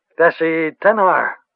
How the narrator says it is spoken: the woman said in a clear, shaking voice

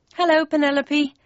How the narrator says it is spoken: said nervously

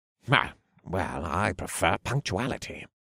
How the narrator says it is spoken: Kane muttered

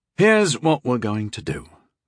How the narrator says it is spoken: sighed

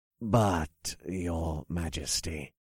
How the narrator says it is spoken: the bishop whispered, just loud enough for me to hear

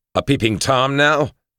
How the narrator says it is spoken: I asked him, snarled at him

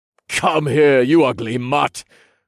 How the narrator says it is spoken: I spat

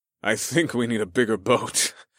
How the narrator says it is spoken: I laughed darkly

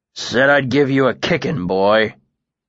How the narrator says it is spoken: the soldier grunted

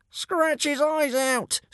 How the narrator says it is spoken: screeched Brightclaw

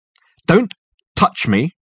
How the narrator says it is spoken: snapped Dirk

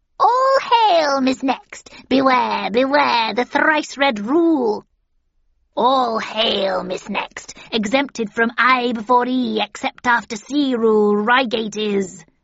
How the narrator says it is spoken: cackled the second

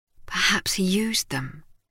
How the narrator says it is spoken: Ogden murmured

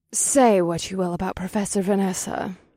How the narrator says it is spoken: Vesta purred, and her soft voice

